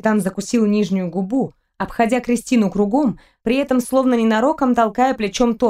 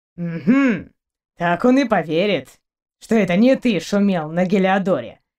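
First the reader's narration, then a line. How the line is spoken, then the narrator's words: Scoffing grunt. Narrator (Russian): хмыкнул Торн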